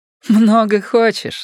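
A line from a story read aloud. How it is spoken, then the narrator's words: Laughing. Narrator (Russian): сказала она, смеясь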